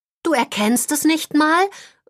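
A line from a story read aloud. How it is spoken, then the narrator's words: Disappointed calling. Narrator (German): ruft Holly enttäuscht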